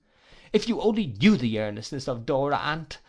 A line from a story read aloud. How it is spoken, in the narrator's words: I cried